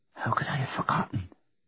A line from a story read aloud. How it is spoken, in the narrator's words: Karen whispered